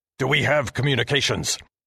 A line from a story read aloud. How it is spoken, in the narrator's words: Commander Heston shouted at me